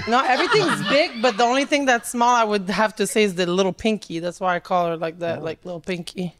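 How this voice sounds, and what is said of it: French Canadian Montreal accent. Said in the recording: “what's your accent? ... I'm from Canada, Montreal. ... I know Canadians that don't sound like you. ... Canadian A, but like from the French part.”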